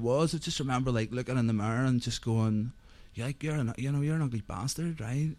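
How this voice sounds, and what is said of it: Northern Irish accent. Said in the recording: “as you may gather from the accent, I'm not a Londoner. I grew up in a place called Carrickfergus in Northern Ireland”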